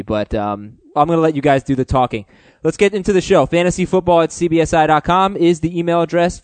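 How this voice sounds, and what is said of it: Hoarse, higher-pitched fading voice. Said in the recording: “I think I'm losing my voice. I know I normally sound like a middle school boy. I feel like I kind of sound like a middle school girl right now. ... My voice is kind of leaving me”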